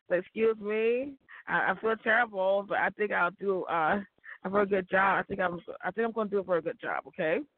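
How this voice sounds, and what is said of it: Stuffy, sick-sounding voice. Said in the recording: “I have a cold,”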